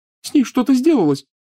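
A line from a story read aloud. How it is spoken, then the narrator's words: Sobbing female voice. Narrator (Russian): всхлипывала Лиана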